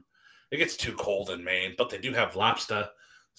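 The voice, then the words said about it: Bad put-on New England accent. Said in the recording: “worst New England accent ever ... I'm not good at impressions.”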